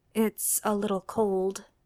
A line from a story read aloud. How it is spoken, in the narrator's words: Jimmy whispers